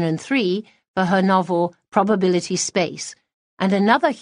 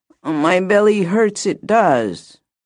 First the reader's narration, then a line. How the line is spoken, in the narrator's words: the girl moaned